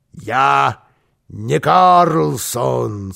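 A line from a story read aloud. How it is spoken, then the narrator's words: Muffled hollow voice. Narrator (Russian): сказал Карлсон глухим голосом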